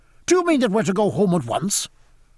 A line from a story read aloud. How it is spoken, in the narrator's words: cried Stephen angrily